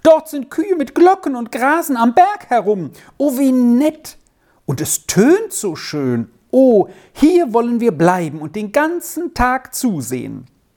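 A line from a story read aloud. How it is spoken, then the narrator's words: Sudden cry. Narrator (German): schrie Squirrel auf einmal auf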